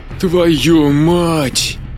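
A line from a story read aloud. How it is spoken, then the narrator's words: Strained, forced out. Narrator (Russian): выдавил Джек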